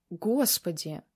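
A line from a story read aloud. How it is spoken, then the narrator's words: Sobbing. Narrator (Russian): Виктория всхлипнула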